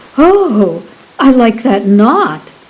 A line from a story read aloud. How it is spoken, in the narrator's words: Bess cried